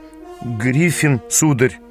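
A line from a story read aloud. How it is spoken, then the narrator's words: Uncertain young man. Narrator (Russian): неуверенно ответил юнец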